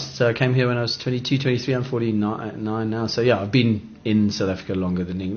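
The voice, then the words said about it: British accent. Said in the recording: “I've still got a British accent”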